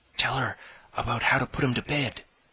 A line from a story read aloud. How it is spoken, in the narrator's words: whispered Cyril